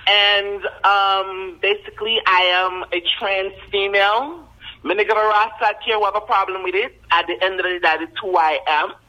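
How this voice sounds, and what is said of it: Jamaican accent. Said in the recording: “you're one of them Haitians that got the Jamaican accent”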